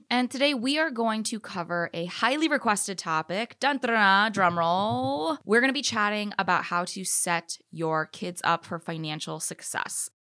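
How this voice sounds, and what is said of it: Congested, slightly nasal voice. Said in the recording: “I hope you guys can't hear it in my voice too much, but I am indeed a little bit congested right now ... please do excuse if I sound a little nasally”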